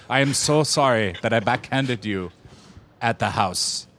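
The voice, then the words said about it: Bad put-on Asian accent. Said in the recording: “my horrible Asian accent”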